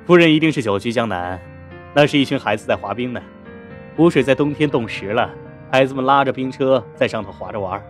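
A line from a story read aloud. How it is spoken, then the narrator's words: Laughing. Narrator (Chinese): 李先生笑道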